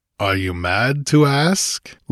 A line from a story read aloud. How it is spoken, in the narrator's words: laughed Conan